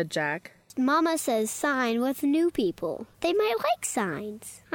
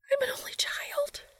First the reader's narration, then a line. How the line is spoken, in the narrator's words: she whisper shouted